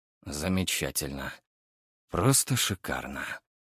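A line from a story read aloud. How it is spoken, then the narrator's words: Heavy sigh. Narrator (Russian): тяжело вздохнул Архаров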